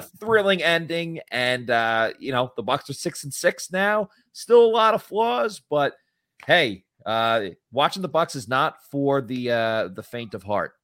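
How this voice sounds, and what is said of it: Slightly hoarse voice. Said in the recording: “you sound a little hoarse... I think you might have lost your voice a little bit.”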